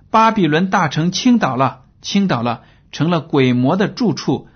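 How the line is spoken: Loud shout. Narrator (Chinese): 他大声喊着说

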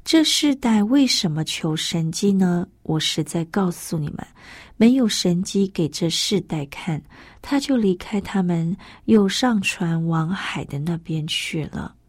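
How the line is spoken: Deep sigh. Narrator (Chinese): 耶稣心里深深的叹息说

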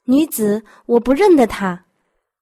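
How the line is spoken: Angry. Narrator (Chinese): 便发怒说

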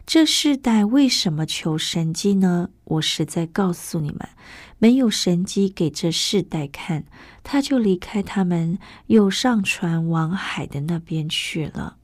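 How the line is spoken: Deep sigh. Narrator (Chinese): 耶稣心里深深的叹息说

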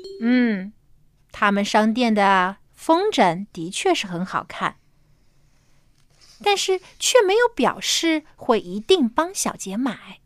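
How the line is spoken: Calm, flat. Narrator (Chinese): 爸爸却淡淡的回答说

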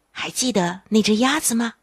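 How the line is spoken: Quiet. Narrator (Chinese): 丽莎小声地对约尼说

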